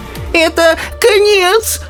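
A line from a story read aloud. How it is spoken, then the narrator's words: Shrieking old woman. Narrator (Russian): взвизгнула бабушка Джорджина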